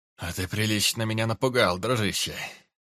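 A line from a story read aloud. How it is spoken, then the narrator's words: Relieved sigh. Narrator (Russian): Облегченно вздохнул Нюгер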